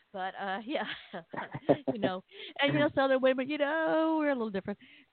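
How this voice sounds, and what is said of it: Southern American accent. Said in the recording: “I'm Southern... You seem to understand my accent”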